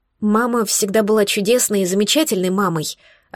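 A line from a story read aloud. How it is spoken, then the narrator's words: Plain. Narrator (Russian): ответила я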